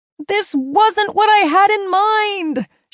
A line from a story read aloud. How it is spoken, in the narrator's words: she shouted into the empty air